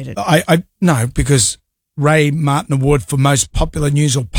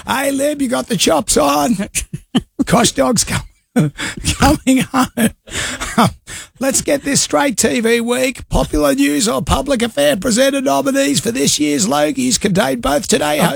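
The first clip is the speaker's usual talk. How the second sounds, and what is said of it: Impression of David Koch. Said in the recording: “Do the voice. ... As the K-Dog says”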